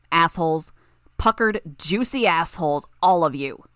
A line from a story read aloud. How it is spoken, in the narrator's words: Skidmark snarled